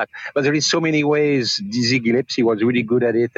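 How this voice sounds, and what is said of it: Speaks English with a beautiful accent. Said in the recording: “In the delivery, the beautiful accent.”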